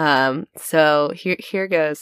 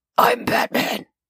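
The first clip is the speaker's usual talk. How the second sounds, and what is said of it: Low gravelly Batman voice. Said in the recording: “best Batman impressions ... I'm recovering from a lost voice, which actually may be helpful in getting those low gravelly notes”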